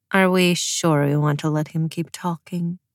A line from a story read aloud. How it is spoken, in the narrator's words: Zoya murmured to Nikolai